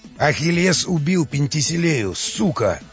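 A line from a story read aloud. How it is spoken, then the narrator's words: Ogre's menacing growl. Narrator (Russian): прорычал людоед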